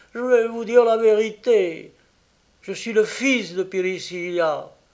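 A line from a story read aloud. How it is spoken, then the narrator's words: Crying out. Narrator (French): s'écria-t-il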